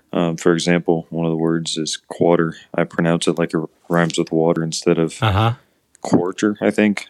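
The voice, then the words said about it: Midwestern accent leaning Southern. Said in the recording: “I think I have a pretty normal Midwestern accent ... He doesn't sound particularly typical Midwest to me ... you can tell that it's closer to the South”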